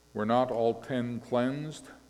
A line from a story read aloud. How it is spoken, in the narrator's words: Jesus asked